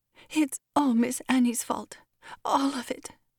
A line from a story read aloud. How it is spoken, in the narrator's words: Molly said at last, in a trembling voice